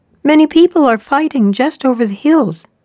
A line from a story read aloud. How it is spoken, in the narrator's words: exclaimed the eagle